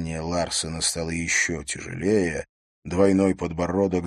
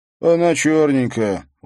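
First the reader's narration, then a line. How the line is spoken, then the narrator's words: Tired explanation. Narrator (Russian): устало пояснил тот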